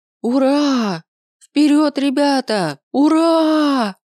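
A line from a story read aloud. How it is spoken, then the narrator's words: Yelling at full voice. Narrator (Russian): набрала полную грудь воздуха и завопила во все горло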